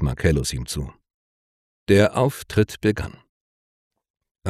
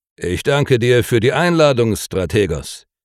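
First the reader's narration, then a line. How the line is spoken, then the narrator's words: Loud. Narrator (German): sagte er laut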